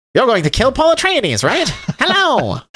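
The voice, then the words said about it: Old-timey radio announcer voice. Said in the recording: “old-timey radio ... well, what do you know? Hello there! Kind of microphone ... I kind of wish they gave him that voice.”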